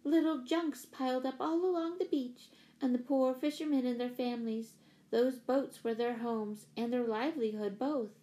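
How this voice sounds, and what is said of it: Gentle voice. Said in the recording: “in her gentle voice.”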